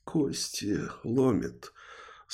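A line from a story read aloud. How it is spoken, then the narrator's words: Groaning. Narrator (Russian): стонал Назар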